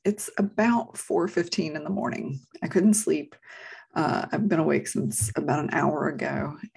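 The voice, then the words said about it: Speaking quietly in a low voice. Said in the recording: “I'm talking so low today”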